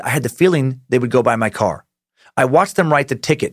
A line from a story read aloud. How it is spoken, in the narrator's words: David says